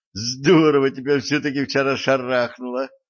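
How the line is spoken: Laughing. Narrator (Russian): засмеялась Дарья

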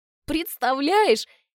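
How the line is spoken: Giggling. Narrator (Russian): хихикаю я

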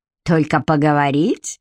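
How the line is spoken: Snorting, then delighted laughter. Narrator (Russian): фыркнул Хьюг и зашелся смехом, в восторге от собственного остроумия

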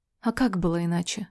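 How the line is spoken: Tired, smiling. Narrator (Russian): улыбается устало

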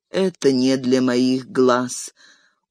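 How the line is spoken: Weary. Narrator (Russian): устало сощурился Арагорн

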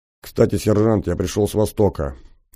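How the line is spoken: Quiet. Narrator (Russian): негромко сказал я

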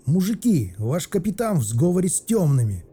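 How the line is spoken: Yelled. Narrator (Russian): заорал Соболь

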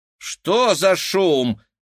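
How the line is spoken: Woman exclaiming. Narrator (Russian): воскликнул женский голос

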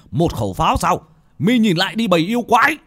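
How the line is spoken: Wounded defiant shout. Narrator (Vietnamese): Một vị pháp sư khắp người đầy máu tươi, vết thương vẫn chảy máu, mà quát lên

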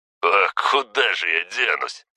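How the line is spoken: Laughing reply. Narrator (Russian): с хохотом ответил тот

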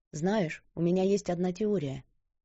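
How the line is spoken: Soft, gentle. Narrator (Russian): тихо произнесла она, не желая разрушить покой этого момента

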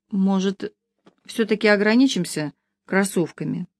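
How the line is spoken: Uncertain objection. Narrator (Russian): Неуверенно возразила Маша

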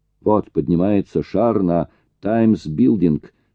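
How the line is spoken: Plain. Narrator (Russian): сказал он

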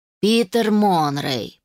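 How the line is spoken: Drawling. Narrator (Russian): протянул глава

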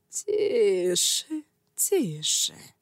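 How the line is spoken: High creaky voice. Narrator (Russian): сказал он высоким, скрипучим голосом

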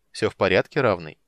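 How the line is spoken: Rude interruption. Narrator (Russian): Водитель грубо оборвал его

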